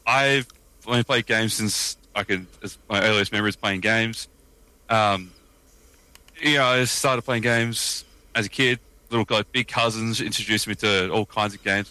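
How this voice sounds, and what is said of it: Australian accent. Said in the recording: “I don't know if we can tell by the accent, I'm Australian.”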